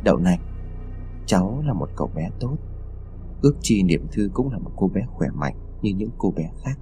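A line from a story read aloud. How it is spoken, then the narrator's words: Muttering. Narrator (Vietnamese): lẩm bẩm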